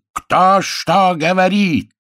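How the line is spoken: Furious yelling. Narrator (Russian): заорал следственный судья в праведном гневе

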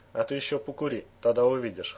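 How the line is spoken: Chuckling. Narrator (Russian): хохотнул Эмир

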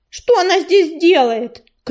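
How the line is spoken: Angry shout. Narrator (Russian): крикнул грачик, сердито

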